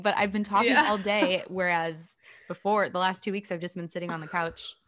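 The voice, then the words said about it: Voice cutting in and out. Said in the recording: “I just keep losing my voice ... my voice keeps like going in and out”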